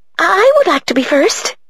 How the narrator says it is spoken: she said in her breathless, high voice

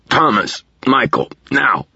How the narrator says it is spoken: croaked

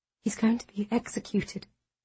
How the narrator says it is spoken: I whisper

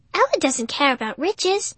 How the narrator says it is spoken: Without thinking, I blurted

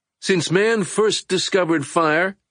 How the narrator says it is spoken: Edmund shouted

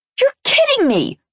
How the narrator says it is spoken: I screeched

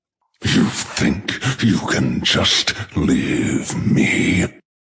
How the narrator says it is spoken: He snarls in the same demonic voice

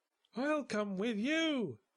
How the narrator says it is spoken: cried Merrill

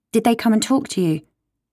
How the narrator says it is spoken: she asks finally

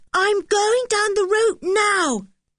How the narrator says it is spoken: he shouted to Anne

